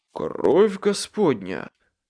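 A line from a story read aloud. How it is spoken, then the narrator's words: Breathed out. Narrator (Russian): выдохнул Майкл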